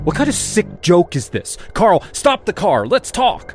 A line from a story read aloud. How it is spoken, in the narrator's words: I shouted